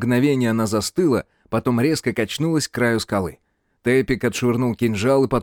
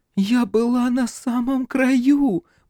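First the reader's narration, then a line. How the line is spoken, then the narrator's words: Girl moaning. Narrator (Russian): простонала девушка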